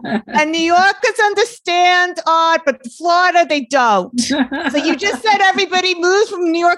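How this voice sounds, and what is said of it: Usual voice. Nothing is said of it.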